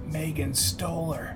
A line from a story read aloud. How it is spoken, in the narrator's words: she said in a whisper